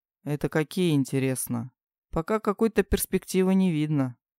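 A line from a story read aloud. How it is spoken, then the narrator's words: Weary. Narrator (Russian): устало сказал Крис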